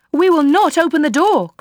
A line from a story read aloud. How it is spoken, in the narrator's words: cried they